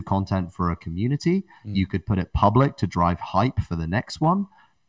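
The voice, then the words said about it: Noticeable accent. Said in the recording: “With the accent.”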